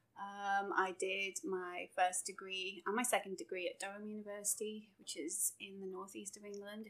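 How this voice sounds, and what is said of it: English accent. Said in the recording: “obviously I'm from England. You can probably tell by the accent.”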